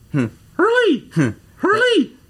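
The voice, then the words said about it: Imitates a bird calling a name. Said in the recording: “what did that bird sound like ... his Hurley Bird impression”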